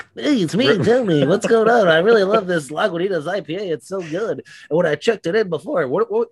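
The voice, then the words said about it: Imitates another person's voice. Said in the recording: “do your voice as you.”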